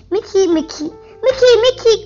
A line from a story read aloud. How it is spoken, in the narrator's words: Goofy shouted